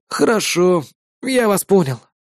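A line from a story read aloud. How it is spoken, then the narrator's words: Crushed, dejected voice. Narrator (Russian): убитым голосом ответил юный помощник вигиланта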